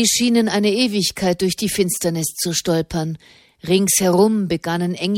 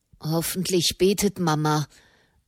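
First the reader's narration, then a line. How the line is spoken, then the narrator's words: Murmur. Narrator (German): murmelte Fra Bartolomeo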